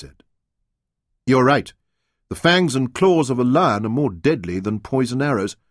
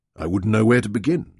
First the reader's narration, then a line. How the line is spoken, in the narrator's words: Leon said